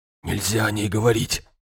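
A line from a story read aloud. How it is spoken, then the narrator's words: Whispered. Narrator (Russian): наконец прошептал он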